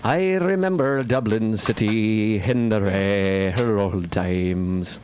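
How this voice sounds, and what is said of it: Slurred, sleepy put-on Irish accent. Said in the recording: “I can do a pretty good accent. ... It just sounds like a drunk Irishman falling asleep.”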